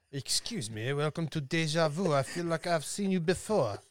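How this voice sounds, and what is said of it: Put-on French accent. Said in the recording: “About my French accent”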